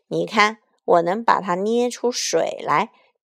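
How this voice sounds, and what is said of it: Deep, thick giant's voice. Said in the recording (Chinese): “巨人用浑厚的声音说”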